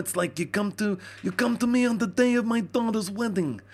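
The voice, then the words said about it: Nasal mob-boss movie impression. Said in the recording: “I'm just doing an impression of other people doing an impression ... It's all up in the nose, like that.”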